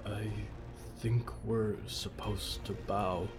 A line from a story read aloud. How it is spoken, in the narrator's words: Jonah murmured